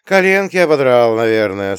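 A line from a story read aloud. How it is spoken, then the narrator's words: Sympathetic sigh. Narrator (Russian): сочувственно вздохнул я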